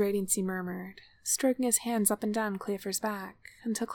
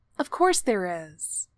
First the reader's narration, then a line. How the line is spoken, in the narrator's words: he said firmly